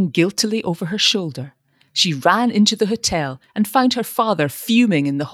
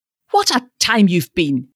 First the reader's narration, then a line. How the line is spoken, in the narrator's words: he exclaimed peevishly